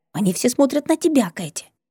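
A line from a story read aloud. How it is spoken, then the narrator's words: Displeased whisper. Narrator (Russian): Недовольный шепот соседки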